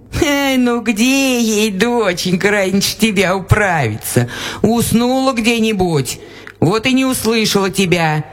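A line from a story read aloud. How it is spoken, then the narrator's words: Laughing old woman. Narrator (Russian): засмеялась баба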